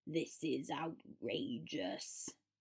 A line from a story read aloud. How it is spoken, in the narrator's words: Severus growled